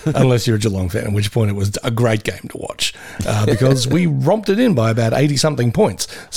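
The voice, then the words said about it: Slightly hoarse voice. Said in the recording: “Mine's a little hoarse.”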